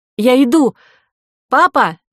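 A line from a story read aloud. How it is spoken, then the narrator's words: Shouting. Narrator (Russian): крикнула Ко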